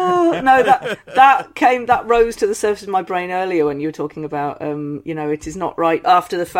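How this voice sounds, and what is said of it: Usual voice. Nothing is said of it.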